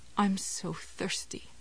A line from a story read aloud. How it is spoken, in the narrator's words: said mournfully